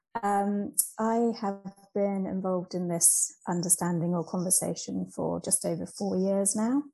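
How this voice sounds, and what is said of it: British English accent. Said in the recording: “I'm here in the UK, as you can probably tell from the accent.”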